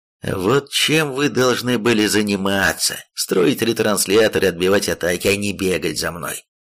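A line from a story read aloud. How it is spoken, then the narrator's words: Demon, loud, nearly shouting. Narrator (Russian): сказал громко, чуть не крича демон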